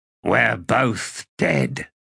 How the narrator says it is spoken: Tok replied, his voice cold as a stranger's

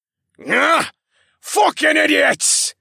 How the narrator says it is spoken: the captain screamed

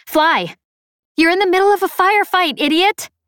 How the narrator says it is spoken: I shouted

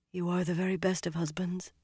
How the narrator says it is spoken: she murmured

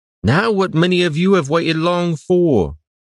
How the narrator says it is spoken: Stalyard called out

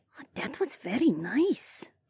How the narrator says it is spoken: the lilac woman whispered, and I assumed she was saying this to herself, but it sounded so fucking cute

